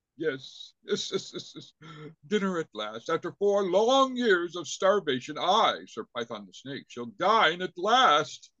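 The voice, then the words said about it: High regal snake character voice. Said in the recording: “Sir Python was sort of a high regal kind of snake character”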